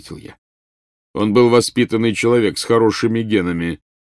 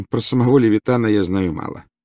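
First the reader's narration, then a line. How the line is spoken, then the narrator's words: Calm reply. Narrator (Russian): ответил спокойно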